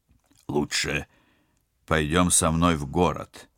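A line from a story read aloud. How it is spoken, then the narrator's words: Steadier voice. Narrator (Russian): окрепшим голосом продолжал спецагент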